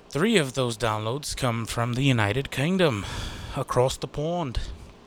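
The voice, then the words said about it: Failed British accent, sounds Australian. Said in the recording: “that's an Australian accent or fucking New Zealand. Uh, excuse me, I don't know the Queen's English.”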